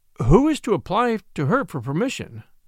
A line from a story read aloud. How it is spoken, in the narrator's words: I asked